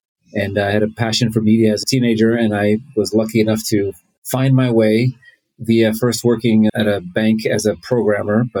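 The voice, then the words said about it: American accent. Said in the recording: “As you can tell, I have an American accent.”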